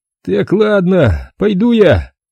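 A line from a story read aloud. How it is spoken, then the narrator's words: Hoarse rasp. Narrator (Russian): прохрипел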